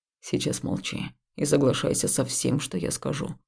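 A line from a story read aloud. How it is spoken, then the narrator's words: Harsh but quiet. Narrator (Russian): жестко, но тихо проговорил Хаул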